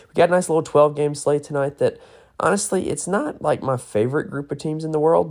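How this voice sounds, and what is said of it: Hoarse, strained, nearly lost voice. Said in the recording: “my voice is like gone this morning... a lot of yelling involved with a close road game”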